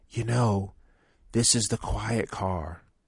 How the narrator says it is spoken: whispered

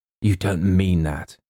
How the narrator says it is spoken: gasped

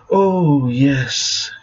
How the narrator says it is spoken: she hissed, her features animated with lust

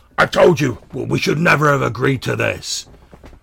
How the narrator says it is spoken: shouts at the other one and he says

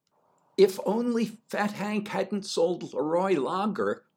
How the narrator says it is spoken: said, or in my enthusiasm shouted

